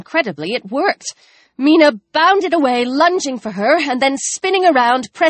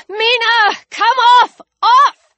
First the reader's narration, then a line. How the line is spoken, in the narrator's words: Alex shouted, and then desperately